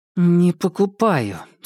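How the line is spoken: Through gritted teeth. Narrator (Russian): сквозь зубы ответила Маша

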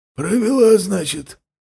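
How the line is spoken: Hoarse voice. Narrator (Russian): заметил сиплый голос

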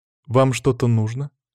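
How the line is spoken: Plain. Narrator (Russian): спросила она

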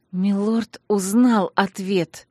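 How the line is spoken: Through clenched teeth. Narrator (Russian): процедила я сквозь крепко стиснутые зубы

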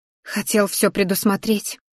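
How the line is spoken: Whisper. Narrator (Russian): шепнула мне Тереза

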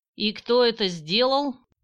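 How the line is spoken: Menacing question. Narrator (Russian): Грозно спросила она

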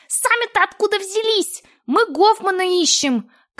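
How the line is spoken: Dwarf's louder squeal. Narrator (Russian): Карлик запищал сильнее

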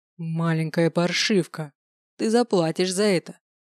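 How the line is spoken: Menacing growl. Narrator (Russian): Грозно прорычал он

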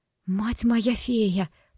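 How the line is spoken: Whisper. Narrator (Russian): прошептала

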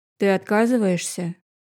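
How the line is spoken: Threatening question. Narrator (Russian): спросил угрожающим тоном

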